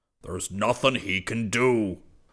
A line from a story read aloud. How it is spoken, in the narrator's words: Hobart Zircon bellowed